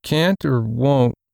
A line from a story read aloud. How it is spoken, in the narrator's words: Randy mumbled